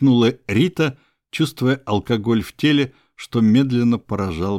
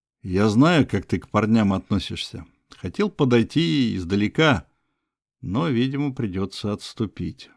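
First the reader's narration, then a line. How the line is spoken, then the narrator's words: Sigh turning to smile. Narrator (Russian): вздохнул Макс, тут же улыбнувшись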